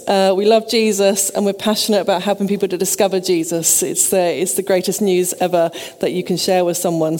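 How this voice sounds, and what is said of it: Sussex English accent. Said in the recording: “Maybe you know from the accent. I'm sorry, but I am a Sussex girl.”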